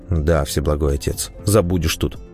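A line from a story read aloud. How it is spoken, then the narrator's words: Gloomy reply. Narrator (Russian): мрачно ответил я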